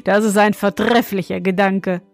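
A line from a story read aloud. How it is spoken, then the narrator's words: Young man laughing. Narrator (German): meinte der junge König und lachte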